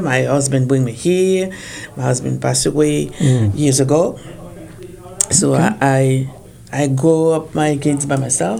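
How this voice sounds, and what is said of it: French accent. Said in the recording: “I'm from France. ... So my accent, Paris.”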